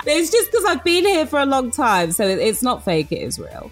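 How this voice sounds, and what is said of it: British accent with slight American twang. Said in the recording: “Obviously British, right? You can tell by the accent. It's got a slight American twang. It's not fake. My real accent now.”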